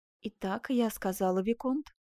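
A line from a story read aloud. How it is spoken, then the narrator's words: Bitter yet calm. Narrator (Russian): заметила она желчно, но спокойно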